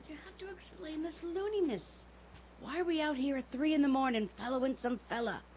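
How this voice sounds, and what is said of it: Whispering. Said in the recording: “See, I told you to whisper, didn't I now? ... all right, I'll whisper.”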